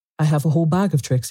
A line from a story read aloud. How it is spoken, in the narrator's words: he said